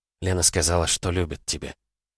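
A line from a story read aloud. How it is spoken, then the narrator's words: Whisper. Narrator (Russian): прошептала я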